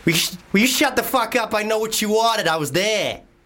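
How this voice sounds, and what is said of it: Put-on Boston American accent. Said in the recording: “American accent ... Boston ... Right, that's actually quite good.”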